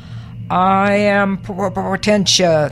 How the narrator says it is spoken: boomed the rock

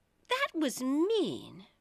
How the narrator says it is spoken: Alice said indignantly

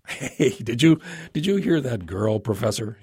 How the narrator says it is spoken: chuckled

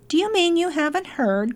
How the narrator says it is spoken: cried the rat

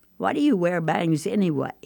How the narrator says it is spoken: asked, trying not to laugh

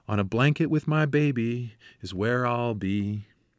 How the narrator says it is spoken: Softly but clearly we sang

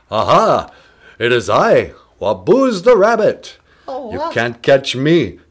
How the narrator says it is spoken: Waboos to exclaim

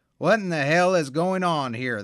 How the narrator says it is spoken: the captain shouts, and he ain't asking, he is telling

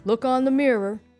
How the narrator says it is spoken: hollered back

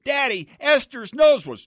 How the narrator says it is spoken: I ran up to him shouting

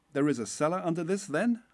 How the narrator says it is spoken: I cried

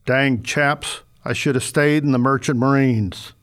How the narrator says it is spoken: The rumbling voice behind the paper said

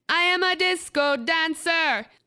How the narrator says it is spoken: at the top of his lungs

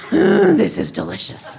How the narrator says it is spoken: make that satisfied masculine growl in his throat that said

